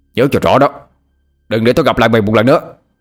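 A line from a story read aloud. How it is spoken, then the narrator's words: Angry shout. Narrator (Vietnamese): Bằng tức giận mà hét lên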